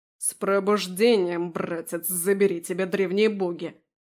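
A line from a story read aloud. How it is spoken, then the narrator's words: Angry cursing. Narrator (Russian): зло выругался Дариан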